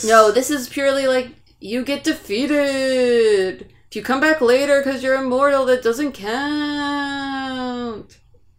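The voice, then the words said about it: Announcer voice. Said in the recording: “I like your announcer voice.”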